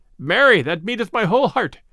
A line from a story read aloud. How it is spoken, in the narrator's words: cried the stranger